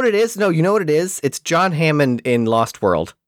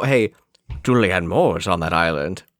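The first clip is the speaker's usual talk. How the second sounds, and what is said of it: John Hammond impression sounding like Sean Connery. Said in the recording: “you turned Richard Hammond into Sean Connery with your impression... It's not full Connery... he's got a bit of a brogue”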